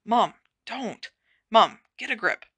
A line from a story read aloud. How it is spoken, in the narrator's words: he muttered